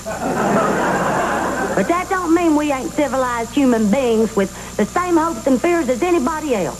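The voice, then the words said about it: Strong Southern American accent. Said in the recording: “when people hear this accent ... we Southerners may talk a little different. Okay, in my case, real different.”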